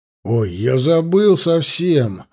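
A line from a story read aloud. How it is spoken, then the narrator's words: Exclaiming. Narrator (Russian): воскликнул Аркадий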